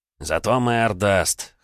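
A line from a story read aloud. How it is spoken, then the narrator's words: Hoarse laugh. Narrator (Russian): хрипло рассмеялся приказчик из лавки, в которой я нашивал карманы, тощий, как жертвь, очкарик Альберт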